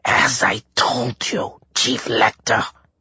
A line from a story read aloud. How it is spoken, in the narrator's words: Menshikov rasped